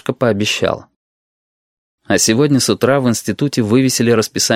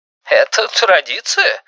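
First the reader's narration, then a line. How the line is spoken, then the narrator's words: Fake laugh. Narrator (Russian): фальшиво засмеялся Валентин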